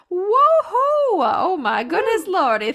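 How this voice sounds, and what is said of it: Imitates heavy Texas grandmother accent. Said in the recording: “a little bit of my grandma Marty came out ... great grandmother from Texas who's this heavy accent”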